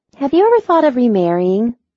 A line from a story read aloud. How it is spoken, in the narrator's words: Mackenzie began in a wistful voice